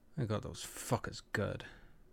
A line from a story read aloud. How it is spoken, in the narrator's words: Kiva growled around the cigarette